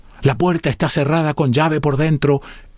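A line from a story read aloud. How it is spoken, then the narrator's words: Exclaimed. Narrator (Spanish): exclamó Clovis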